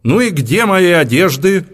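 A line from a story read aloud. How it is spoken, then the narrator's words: Loud shout. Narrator (Russian): Хепри … громко крикнула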